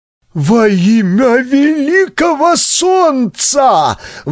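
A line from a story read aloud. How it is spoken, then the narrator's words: Exclaimed. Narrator (Russian): воскликнул Булак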